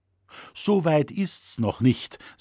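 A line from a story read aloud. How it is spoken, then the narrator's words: Laughing. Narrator (German): sagte lachend Franz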